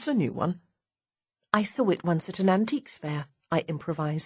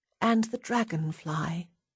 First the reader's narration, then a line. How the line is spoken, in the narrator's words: she murmurs